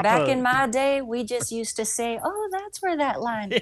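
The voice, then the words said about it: Thick Southern US accent. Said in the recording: “my southern accent just got thicker”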